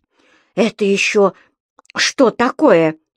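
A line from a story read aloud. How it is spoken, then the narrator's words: Frightened question. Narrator (Russian): испуганно спросила госпожа Брюкман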